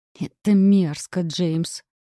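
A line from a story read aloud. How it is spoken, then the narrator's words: Hiss. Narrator (Russian): прошипела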